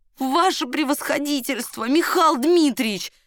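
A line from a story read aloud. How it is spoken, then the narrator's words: Howling wail. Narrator (Russian): взвыл прапорщик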